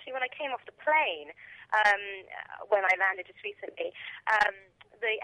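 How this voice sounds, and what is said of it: Usual voice. Nothing is said of it.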